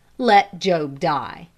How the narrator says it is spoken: said my better self again in a cold, firm tone

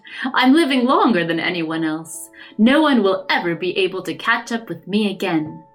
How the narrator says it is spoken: Jim laughed

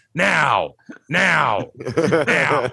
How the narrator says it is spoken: woman just yelling

